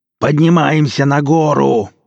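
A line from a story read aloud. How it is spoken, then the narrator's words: Fierce yelling. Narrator (Russian): орал со зверским лицом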